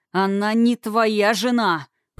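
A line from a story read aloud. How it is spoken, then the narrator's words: Hateful growl. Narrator (Russian): прорычал Тхирайм, опаляя князя ненавидящим взглядом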